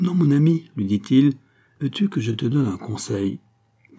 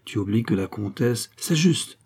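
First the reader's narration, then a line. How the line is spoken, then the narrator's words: Murmured. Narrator (French): murmura Fabien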